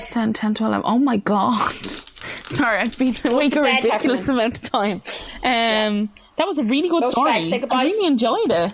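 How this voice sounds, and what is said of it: Exhausted, cracked, worn-out voice. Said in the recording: “You sound absolutely exhausted. ... my voice is gone. I'm cracked.”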